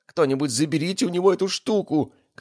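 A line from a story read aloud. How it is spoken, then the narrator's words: Shout. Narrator (Russian): крикнул Феликс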